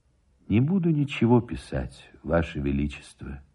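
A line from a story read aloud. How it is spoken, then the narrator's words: Sad. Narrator (Russian): отвечал печально Никитин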